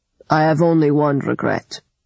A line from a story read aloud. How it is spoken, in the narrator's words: he had said in his gravelly voice